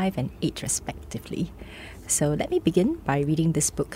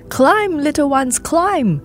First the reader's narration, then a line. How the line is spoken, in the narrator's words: the adults would shout